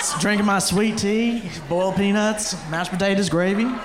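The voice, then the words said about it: Exaggerated Southern US accent. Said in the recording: “that's when I start speaking southern ... You want my accent?”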